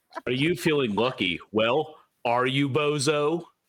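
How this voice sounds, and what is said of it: Imitates another person's voice. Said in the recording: “do a Clint Eastwood impression”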